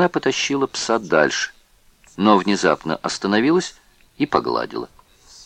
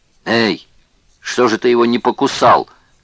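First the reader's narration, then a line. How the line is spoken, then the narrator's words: Shouted. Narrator (Russian): крикнул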